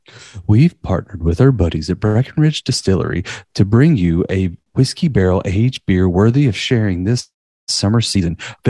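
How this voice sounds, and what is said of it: Announcer-style voice. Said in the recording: “announcer voice”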